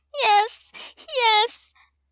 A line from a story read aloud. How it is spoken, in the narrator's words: Dominique moans